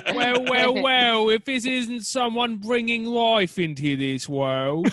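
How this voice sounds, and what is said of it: Poor put-on British accent. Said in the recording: “This is the poorest British accent.”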